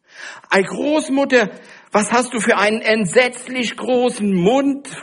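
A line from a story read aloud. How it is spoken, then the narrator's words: Frightened cry. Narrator (German): rief das Rotkäppchen angsterfüllt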